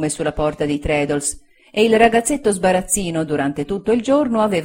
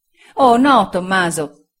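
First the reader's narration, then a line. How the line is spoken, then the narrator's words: Exclaiming. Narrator (Italian): esclamò Sofia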